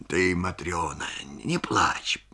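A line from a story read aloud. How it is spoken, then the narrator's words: Muttered. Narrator (Russian): бормочет он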